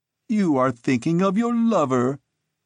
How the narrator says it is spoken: he laughed

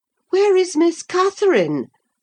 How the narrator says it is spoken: I cried hurriedly

